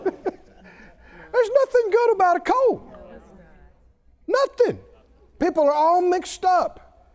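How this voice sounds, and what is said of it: Raised, emphatic preaching voice. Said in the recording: “raise my voice”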